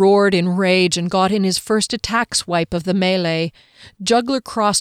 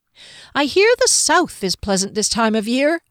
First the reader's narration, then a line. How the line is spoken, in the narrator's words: Fennel said as brightly as he could between puffs of breath